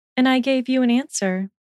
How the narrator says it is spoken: she replied calmly

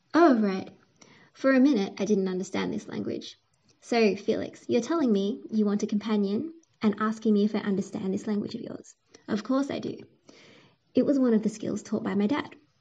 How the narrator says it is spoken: cried Jessica, her voice loudly echoing in the cave

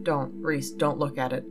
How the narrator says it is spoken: Ian tried to turn me away, softly saying

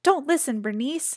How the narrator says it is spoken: Sophie cried

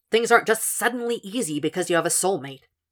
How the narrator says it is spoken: Zeller scoffed

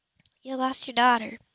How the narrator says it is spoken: Alice said very gently

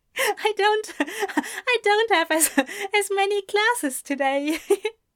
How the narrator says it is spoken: Ezra said between giggles

